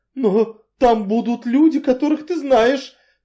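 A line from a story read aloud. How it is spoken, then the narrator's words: Triumphant exclamation. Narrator (Russian): торжествующе воскликнула миссис Ривз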